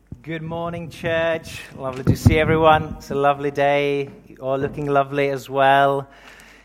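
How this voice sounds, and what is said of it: Czech accent. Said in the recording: “I'm originally from the Czech Republic, in case you're wondering about the accent.”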